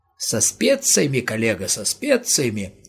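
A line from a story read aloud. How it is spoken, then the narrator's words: Giggling. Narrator (Russian): хихикнул викарий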